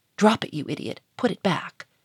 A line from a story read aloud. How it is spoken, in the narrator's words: he hissed in an angry whisper